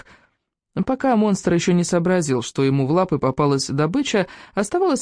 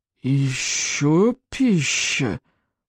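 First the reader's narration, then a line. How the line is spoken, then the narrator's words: Monster's surprised hiss. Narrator (Russian): удивленно прошипело чудовище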